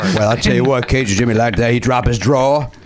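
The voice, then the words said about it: Cajun accent character voice. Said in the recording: “Could you keep that accent up ... You were just Cajun Jimmy.”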